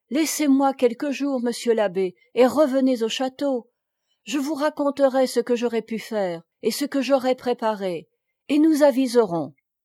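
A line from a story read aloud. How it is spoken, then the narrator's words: Pleading. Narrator (French): Jeanne disait, suppliante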